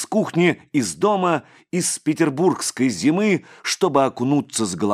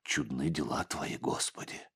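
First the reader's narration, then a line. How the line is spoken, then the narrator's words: Whisper. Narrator (Russian): прошептал отец Егорий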